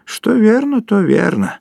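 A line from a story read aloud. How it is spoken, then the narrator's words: Sighing. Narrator (Russian): вздохнул Горбовский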